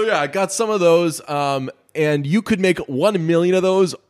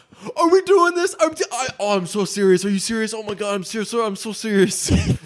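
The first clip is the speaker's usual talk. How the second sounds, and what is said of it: Imitates another person's voice. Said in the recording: “really, really good Dave Franco impression ... that's exactly what he sounds like all the time”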